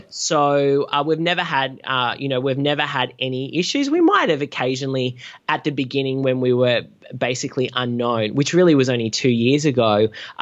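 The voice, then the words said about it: Australian accent. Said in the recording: “oh my God, you're Australian. Like the Americans love the Australian accent.”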